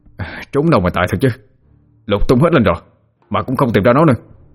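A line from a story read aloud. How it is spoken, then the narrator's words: Resentful, sullen. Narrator (Vietnamese): Bọn nó hậm hực nói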